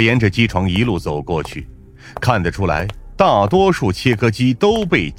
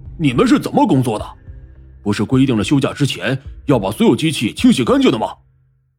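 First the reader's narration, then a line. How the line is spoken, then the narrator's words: Loud angry roar. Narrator (Chinese): 大声吼道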